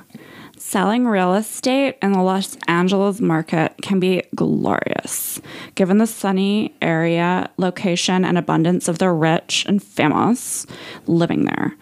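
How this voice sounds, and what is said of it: Put-on Los Angeles accent. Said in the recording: “I'm going to do my LA voice while I read it”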